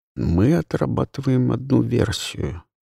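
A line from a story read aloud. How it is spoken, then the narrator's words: Calm. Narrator (Russian): спокойно продолжал инспектор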